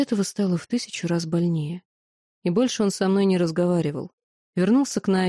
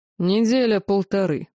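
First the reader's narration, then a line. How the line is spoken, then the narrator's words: Cold. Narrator (Russian): холодно ответил магистр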